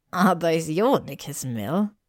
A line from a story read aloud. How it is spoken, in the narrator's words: Pansy asked, cackling